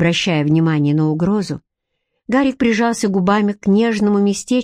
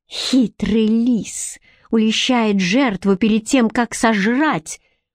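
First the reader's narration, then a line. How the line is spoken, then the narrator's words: Hiss through clenched teeth. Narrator (Russian): прошипела Бренна сквозь стиснутые зубы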